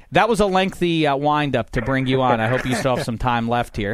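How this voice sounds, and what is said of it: Pittsburgh accent. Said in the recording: “I have that ugly Pittsburgh accent.”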